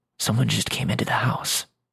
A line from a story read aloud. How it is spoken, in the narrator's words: whisper